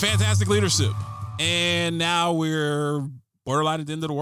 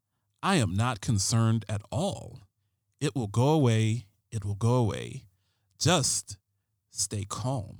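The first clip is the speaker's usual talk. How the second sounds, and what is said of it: David Caruso impression. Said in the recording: “I gotta do the David Caruso voice.”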